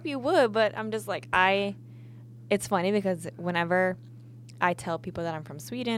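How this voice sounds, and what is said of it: Usual voice. Nothing is said of it.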